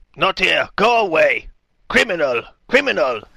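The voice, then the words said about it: Terrifying put-on creature accent. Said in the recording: “What kind of accent was that? ... I don't know, but it's terrifying.”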